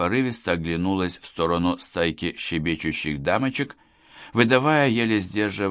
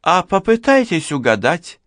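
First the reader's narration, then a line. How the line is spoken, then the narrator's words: Excited young woman exclaiming. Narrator (Russian): Азартно воскликнула молодая женщина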